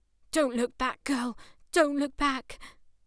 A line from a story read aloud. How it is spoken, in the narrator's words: Maddie, panting heavily, unfit, out of breath